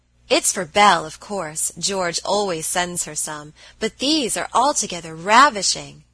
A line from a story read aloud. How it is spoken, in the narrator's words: cried Annie, with a great sniff